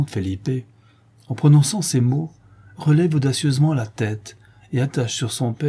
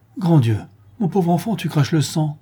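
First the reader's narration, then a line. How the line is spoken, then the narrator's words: Alarmed voice. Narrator (French): le duc ajoute d'une voix alarmée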